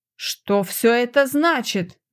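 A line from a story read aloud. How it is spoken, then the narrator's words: Roaring. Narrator (Russian): взревел Руасан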